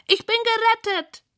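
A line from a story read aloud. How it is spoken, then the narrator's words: Squeaking. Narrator (German): quiekt Rosamunda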